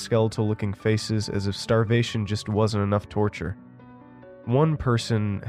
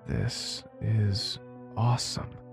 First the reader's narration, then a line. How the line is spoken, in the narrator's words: I whispered to myself